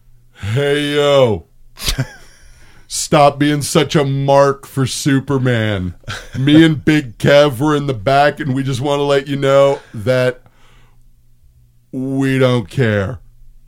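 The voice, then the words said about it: Impression of a co-host. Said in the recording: “do an impression of what Owen's going to sound like in about 25 minutes”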